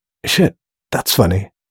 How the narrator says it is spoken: murmured Laszlo

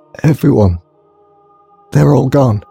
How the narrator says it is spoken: he croaked

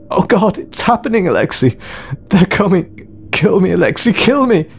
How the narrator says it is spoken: he sobbed

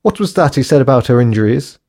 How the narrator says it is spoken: Jane asked hysterically, still in a state of shock

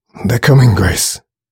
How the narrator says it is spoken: muttered Alex in an agitated voice

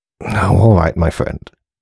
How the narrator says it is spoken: muttered Aubrey at last

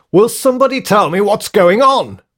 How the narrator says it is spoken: she yelled

